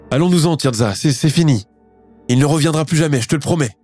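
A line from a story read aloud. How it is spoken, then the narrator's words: Pleading while crying. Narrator (French): la supplie Alicia Arnaud en pleurant sur son épaule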